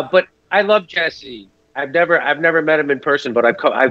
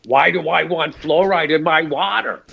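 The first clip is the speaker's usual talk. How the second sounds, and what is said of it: Imitates another person's voice. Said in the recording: “I tried to do an impression of him. I could never really get”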